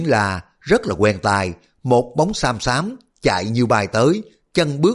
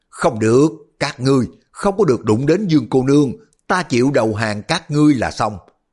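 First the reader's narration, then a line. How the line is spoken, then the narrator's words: Sudden distant shout. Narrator (Vietnamese): từ phía sau núi có tiếng người la lên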